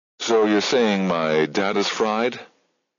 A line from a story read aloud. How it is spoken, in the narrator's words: Jabba chuckled